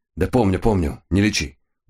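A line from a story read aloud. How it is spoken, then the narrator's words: Tired snapping over phone. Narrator (Russian): устало огрызнулся голос в трубке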